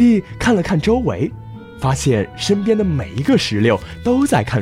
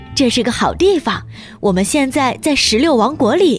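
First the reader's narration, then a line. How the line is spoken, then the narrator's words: Smiling. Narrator (Chinese): 石榴笑着说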